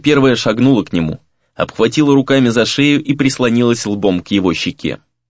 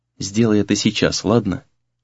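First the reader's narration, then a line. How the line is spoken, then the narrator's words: Quiet request. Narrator (Russian): тихо попросила она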